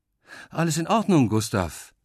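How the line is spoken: Mother calling out. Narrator (German): ruft Mama

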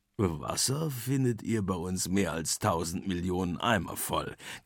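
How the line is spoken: Macaw's croak. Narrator (German): krächzt der Ara

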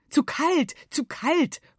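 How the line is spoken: Father calling out. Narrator (German): ruft Papa

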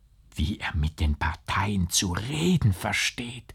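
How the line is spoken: Girl whispering. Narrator (German): flüsterte das Mädchen

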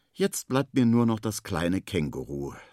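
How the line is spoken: Sighing. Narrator (German): seufzt Henry

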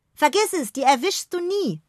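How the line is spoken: Calling after someone. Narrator (German): ruft Noah ihr nach

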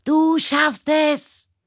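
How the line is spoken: Shouting. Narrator (German): schreit

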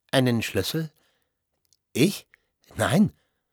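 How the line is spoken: Stammered. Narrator (German): stammelte Petersen

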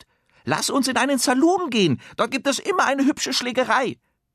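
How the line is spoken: Calls out, hat. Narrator (German): Der Hut ruft

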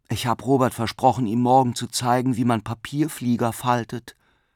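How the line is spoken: Sighing. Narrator (German): seufzte Bruno

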